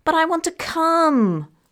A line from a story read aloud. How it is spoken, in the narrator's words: wailed Shruti